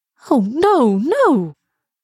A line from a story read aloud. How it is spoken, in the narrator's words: cried Elsa